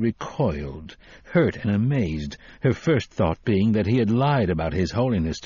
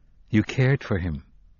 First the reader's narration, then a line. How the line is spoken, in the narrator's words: he said flatly